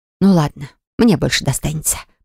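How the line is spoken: Mumbled. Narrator (Russian): пробормотала я

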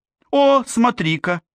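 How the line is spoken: Joyful exclamation. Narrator (Russian): радостно воскликнула мама

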